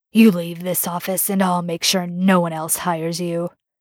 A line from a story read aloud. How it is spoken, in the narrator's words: Devereaux growled